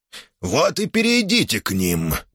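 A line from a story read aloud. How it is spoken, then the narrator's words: Grumbled. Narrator (Russian): проворчал Астус Нор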